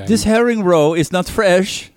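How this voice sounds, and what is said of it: Put-on foreign accent, possibly Finnish. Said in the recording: “Is that a Finnish accent? I don't even know what accent.”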